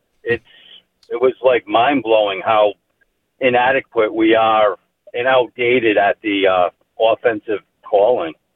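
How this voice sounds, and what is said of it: New England, Rhode Island accent. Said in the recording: “I love hearing the New England accent ... he's from Rhode Island. I think that's pretty legit with that accent.”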